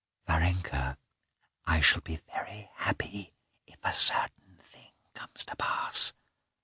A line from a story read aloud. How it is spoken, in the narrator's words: she whispered